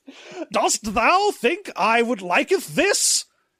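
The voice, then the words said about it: Overwrought Shakespearean British accent. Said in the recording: “overwrought British accent ... Some Shakespearean-ass bullshit ... that voice”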